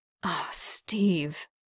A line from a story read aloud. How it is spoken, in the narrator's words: Bucky breathed